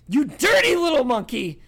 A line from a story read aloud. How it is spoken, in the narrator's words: bawled Bellatrix